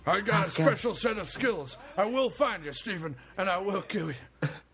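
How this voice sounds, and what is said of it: Put-on accent, not his own. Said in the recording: “I don't know why I'm doing this accent. I'm from Detroit.”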